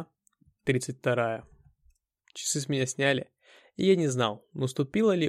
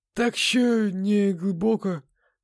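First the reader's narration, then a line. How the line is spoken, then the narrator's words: Hoarse wheeze. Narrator (Russian): просипел мужик с синим лицом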